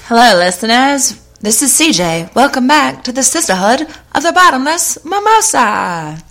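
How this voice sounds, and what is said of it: Put-on transatlantic accent. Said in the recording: “that creepy is... alien ... I was going through for a transatlantic accent.”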